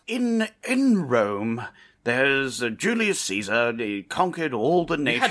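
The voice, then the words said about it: Calm narrator, radio-announcer style. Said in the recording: “Without the heavy British accent... It was, you know, very calm sort of thing... like your typical British calm thing. Like a radio announcement, almost.”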